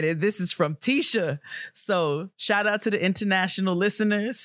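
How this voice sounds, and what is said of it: Usual voice. Nothing is said of it.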